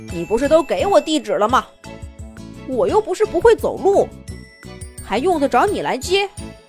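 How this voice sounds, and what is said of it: Hearty, bold character voice. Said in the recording (Chinese): “依旧用他豪爽的声音说道”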